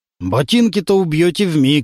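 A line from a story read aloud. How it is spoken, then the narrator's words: Plain. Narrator (Russian): сказал Суханов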